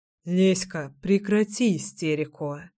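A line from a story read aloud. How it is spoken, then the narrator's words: Calm mutter. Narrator (Russian): спокойно пробормотал Кирилл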